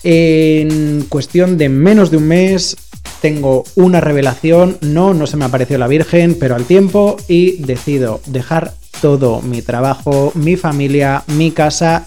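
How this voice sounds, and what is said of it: Spanish accent from Spain. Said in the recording (Spanish): “Mi origen, España. Creo que por el acento no se había notado prácticamente.”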